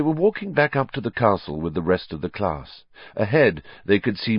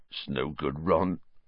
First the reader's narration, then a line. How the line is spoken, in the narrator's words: said Hagrid sadly